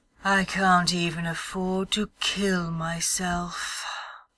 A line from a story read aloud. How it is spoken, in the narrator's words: sighed smirking wistfully